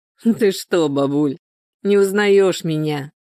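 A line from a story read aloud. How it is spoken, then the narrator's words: Laughing. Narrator (Russian): рассмеялся Егор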